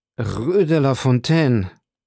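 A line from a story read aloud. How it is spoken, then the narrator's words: Strained pressed voice. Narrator (German): versetzte Villefort mit gepresster Stimme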